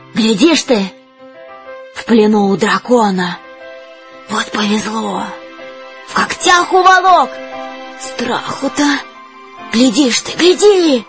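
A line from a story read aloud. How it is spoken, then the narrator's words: Whispering crowd. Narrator (Russian): На крышах шептались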